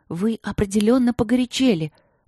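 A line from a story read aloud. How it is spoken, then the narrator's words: Cheerful announcement. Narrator (Russian): радостно сообщило ее высочество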